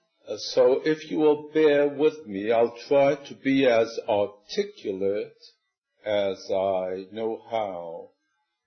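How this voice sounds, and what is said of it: New York accent. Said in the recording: “I have a New York accent, and the South hasn't cured me at all”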